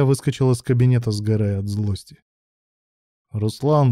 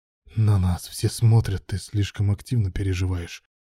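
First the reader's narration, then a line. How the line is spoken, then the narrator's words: Hissed. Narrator (Russian): прошипел Руслан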